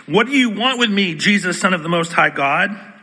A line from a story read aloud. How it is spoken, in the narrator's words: the man shout at the top of his voice